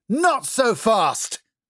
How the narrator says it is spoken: she yelled at the top of her lungs, as she'd seen policemen do on TV

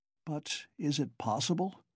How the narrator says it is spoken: he brought out faintly

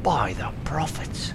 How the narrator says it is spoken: says one of the sailors softly

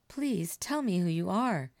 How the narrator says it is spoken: begged

